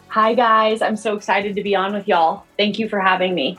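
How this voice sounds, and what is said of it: Texas accent. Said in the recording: “that Texas accent”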